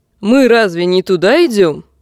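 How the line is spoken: Shouted. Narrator (Russian): крикнул Серхиль

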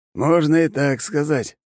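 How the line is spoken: Wry snort. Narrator (Russian): хмыкнул президент

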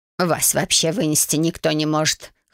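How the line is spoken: Scoffing witch. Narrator (Russian): хмыкнула ведьма

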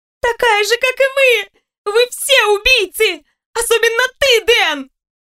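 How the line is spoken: Shouting. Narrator (Russian): Закричала Улиэль

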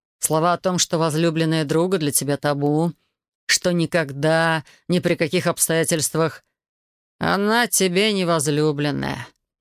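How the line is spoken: Through gritted teeth. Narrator (Russian): процедил Элай

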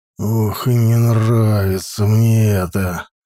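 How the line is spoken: Through gritted teeth. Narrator (Russian): сквозь зубы сказал он

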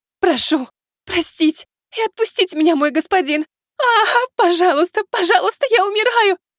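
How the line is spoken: Sobbing in pain. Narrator (Russian): Она уже рыдала от боли

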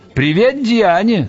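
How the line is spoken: Yelled. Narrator (Russian): заорал он

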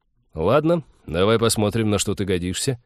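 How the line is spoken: Sudden snort, then speech. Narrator (Russian): Тед неожиданно хмыкнул, сказал

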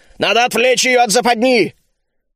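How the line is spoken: Roared in unison. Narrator (Russian): Мы снова дружно взревели

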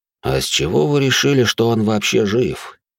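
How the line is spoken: Gloomy question. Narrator (Russian): мрачно поинтересовался Эрик

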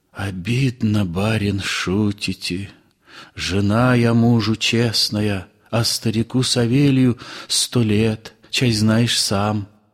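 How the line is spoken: Whispered woman's answer. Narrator (Russian): Я шепотком ответила

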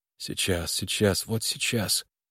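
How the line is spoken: Unconscious whisper. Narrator (Russian): сам того не замечая, шептал Харлан

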